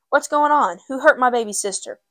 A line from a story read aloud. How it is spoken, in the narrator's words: he cried out